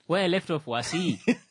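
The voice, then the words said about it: English with Thimbukusho accent. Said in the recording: “Now that's English with a Thimbukusho accent.”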